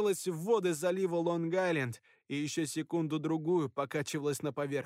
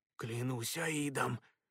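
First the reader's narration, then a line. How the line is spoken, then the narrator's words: Childlike amazed mutter. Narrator (Russian): с детским изумлением пробормотал Шерман Ян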